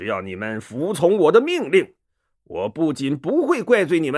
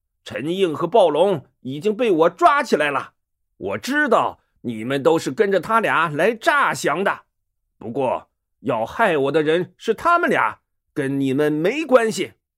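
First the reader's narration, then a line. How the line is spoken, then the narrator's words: Loud. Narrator (Chinese): 他大声说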